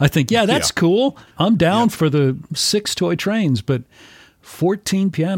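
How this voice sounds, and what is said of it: Usual voice. Nothing is said of it.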